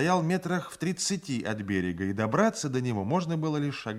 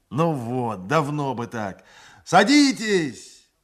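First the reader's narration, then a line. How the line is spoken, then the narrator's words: Shouted. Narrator (Russian): закричал он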